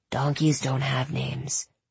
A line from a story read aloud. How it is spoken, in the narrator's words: he whispered back